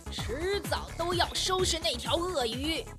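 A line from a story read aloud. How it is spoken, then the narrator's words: Angry loud roar. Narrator (Chinese): 愤怒地大声地吼道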